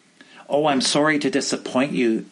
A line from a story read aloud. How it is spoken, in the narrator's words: the preacher said